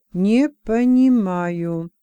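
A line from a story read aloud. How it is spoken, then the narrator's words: Slow speech. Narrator (Russian): медленно проговорил Юрк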